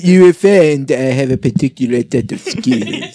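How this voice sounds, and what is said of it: Put-on French accent. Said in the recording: “French accent”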